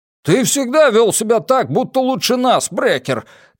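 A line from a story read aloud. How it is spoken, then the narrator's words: Shout. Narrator (Russian): крикнул Сигер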